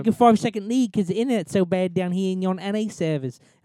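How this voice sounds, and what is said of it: Put-on Australian or English accent. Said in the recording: “that was my Australian accent. I don't know if it was English or Australian.”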